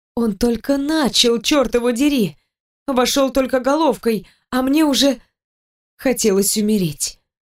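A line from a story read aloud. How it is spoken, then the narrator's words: Choking moans and cries. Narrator (Russian): захлебываясь в стонах и криках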